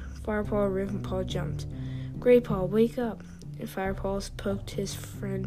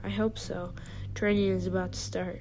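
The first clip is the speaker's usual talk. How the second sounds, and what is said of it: Deep growling voice. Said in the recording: “A deep voice growled”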